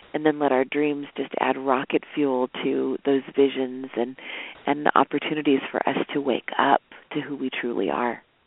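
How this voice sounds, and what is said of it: Stuffy, congested voice. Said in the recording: “In spite of my cold, I don't know, my voice is a little stuffy”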